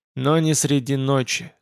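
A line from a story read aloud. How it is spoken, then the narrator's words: Gloomy, to himself. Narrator (Russian): сказал он себе мрачно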